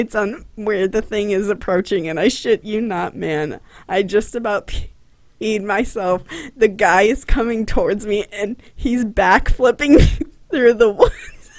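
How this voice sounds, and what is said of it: Voice strained from suppressed laughter. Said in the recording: “I'm holding back laughter, so if I sound weird, I'm sorry.”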